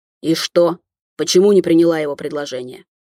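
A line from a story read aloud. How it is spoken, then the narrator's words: Condescending, through gritted teeth. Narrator (Russian): Снисходительно процедил Кирилл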